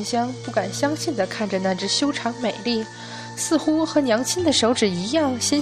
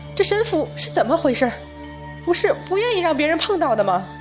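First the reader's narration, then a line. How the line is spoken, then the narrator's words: Shocked shout. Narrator (Chinese): 众人惊愕万分，敖春更是直接叫道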